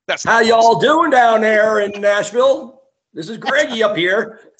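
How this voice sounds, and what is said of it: Bad put-on Southern twang. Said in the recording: “speaking a Southern twang ... That had to sound awful.”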